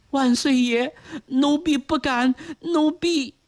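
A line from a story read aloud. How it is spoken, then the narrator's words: Trembling voice. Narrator (Chinese): 巧莲 颤声回道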